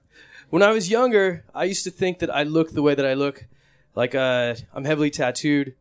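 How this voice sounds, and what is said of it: American accent. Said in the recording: “Sorry for the American accent. I know I sound like people you hate.”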